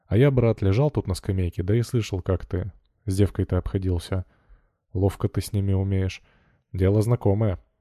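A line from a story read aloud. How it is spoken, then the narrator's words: Plain. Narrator (Russian): сказал Кузьма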